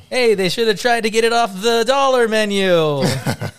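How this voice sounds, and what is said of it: Put-on Italian accent. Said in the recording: “my Italian accent”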